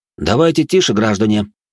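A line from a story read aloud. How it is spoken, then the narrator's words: Stern warning. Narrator (Russian): строго предупредил я пленников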